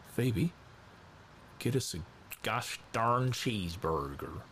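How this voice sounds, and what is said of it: Bad put-on American accent. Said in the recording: “that's a really bad American accent”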